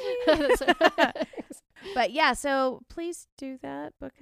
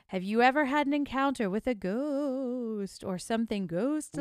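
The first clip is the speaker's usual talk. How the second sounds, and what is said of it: Creepy spooky reading voice. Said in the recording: “I'm going to read it in a creepy voice.”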